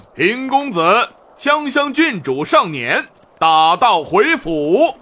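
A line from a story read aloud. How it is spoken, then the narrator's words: Loud announcement. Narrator (Chinese): 陈杰便大声向城门口道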